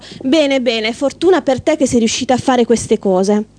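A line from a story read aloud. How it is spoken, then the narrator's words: Sarcastic remark. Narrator (Italian): Con tono sarcastico la Baba Yaga osservò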